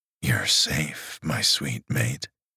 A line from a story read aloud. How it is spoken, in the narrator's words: he murmured soothingly against her mouth